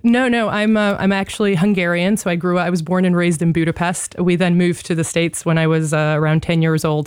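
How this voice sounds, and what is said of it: American accent. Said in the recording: “I sound like a Yank ... You obviously speak English, albeit with an American accent.”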